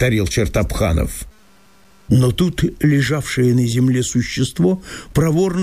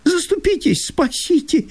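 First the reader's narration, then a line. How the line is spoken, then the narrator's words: Frightened pleading babble. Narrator (Russian): лепетал между тем несчастный жид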